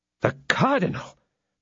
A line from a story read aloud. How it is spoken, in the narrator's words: cried the astounded musketeer